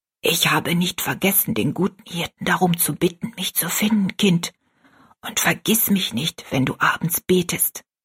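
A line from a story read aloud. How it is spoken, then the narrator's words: Whispered in ear. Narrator (German): flüsterte sie Rosalie ins Ohr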